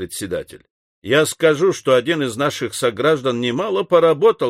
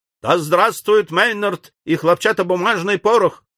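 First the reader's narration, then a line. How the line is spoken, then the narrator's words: Loud shout. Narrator (Russian): крикнул шумливый секретарь пушечного клуба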